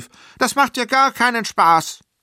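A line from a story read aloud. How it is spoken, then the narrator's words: Calling out. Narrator (German): rief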